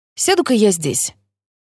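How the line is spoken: Carefree tone. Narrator (Russian): говорю я самым беспечным тоном, на какой только способна

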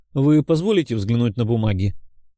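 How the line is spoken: Sarcastic request. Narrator (Russian): язвительно попросил я

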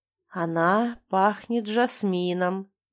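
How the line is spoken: Slowly spoken. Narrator (Russian): медленно произносит

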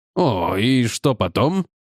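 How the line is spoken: Young man, contemptuous snort. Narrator (Russian): Юный мистер Дуайт презрительно фыркнул

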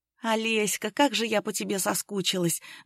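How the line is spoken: Breathless, friend. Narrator (Russian): выдохнула подруга

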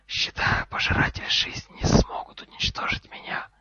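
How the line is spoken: Hiss. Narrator (Russian): прошипел профессор Квирл

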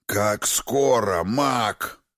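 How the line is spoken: Growl. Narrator (Russian): рыкнул Крас

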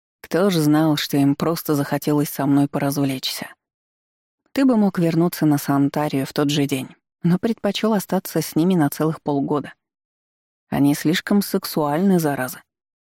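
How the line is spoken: Rueful sigh. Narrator (Russian): сокрушённо вздохнул он

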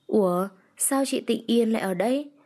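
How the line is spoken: Smiling. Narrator (Vietnamese): Anh mỉm cười

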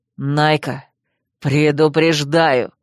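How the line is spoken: Growling. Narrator (Russian): прорычал Койл

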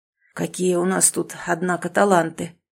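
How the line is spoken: Hoarse wheeze. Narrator (Russian): прохрипел Иван Романович

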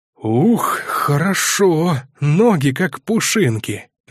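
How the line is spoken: Exclaiming. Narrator (Russian): воскликнул оружейник

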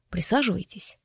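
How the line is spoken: Quiet command. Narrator (Russian): тихо велел он

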